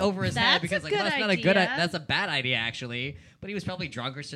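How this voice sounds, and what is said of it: Usual voice. Nothing is said of it.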